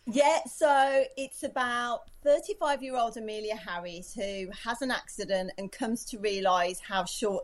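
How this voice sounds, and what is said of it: Distinctive Brummie (Birmingham) English accent. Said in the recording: “you have a more distinctive accent... I'm clearly the Brummy here.”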